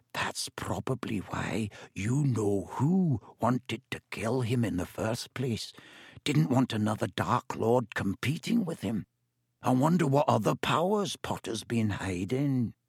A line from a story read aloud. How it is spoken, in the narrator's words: He dropped his voice until it was barely more than a whisper and said